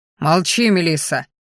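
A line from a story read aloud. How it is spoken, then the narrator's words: Growling man. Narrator (Russian): рыкнул мужчина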